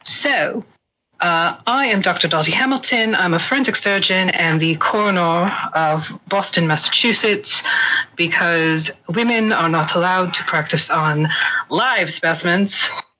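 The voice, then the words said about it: Put-on traditional English accent. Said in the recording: “accent ... traditional English with no actual source”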